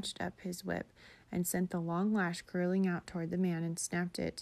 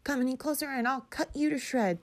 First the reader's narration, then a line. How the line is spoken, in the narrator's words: he shouted